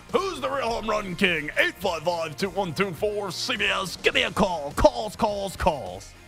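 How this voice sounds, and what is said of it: Cheesy radio announcer voice. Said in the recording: “cheesy radio voice”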